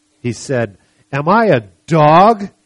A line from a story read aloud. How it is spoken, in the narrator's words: he roared at David